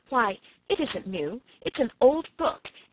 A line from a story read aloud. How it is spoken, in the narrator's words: exclaimed Felicity